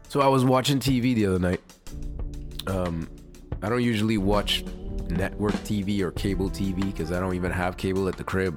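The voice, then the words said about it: Rough, damaged voice. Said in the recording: “my voice is fucked”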